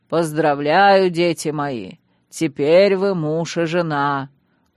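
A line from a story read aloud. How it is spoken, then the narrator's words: Confident deep bass. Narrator (Russian): уверенно басил жрец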